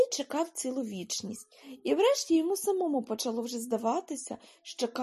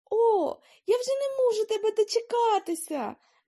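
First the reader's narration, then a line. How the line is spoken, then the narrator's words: Child's exclamation. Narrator (Ukrainian): вигукнув малий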